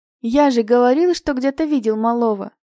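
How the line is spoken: Joyful announcement. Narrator (Russian): радостно сообщил Василий Антонович

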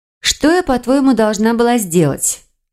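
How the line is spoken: Sighing. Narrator (Russian): вздохнула магичка

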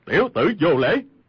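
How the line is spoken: Angry, somewhat frightened. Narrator (Vietnamese): Cừu Thiên Nhận thần sắc có ba phần hoảng sợ, tức giận nói

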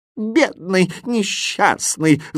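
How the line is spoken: Groaning. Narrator (Russian): застонал восклицательный

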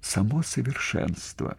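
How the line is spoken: Rapturous whisper. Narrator (Russian): в каком-то почти религиозном восторге, а потом прошептала

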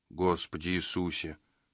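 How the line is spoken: Mutter. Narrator (Russian): пробормотал Джина

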